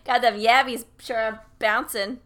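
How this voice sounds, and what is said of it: Exaggerated regional accent. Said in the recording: “Especially with like the regional accent.”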